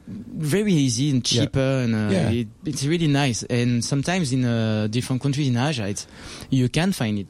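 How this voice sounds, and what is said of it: French accent. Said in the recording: “Your accent drives me absolutely crazy ... that French accent of yours is sexy”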